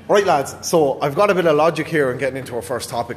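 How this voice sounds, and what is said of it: Irish accent. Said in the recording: “as you guess by your accents, I'm the only fucking Irish person here tonight”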